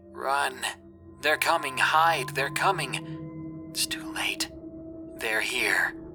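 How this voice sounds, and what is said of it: Raspy, hard-to-decipher voice. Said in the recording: “a raspy voice came through. It was hard to decipher”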